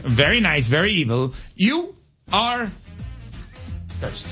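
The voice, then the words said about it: Impression of Danhausen, evil voice. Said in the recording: “Just do your impression of it ... Danhausen cursing the Hurricanes”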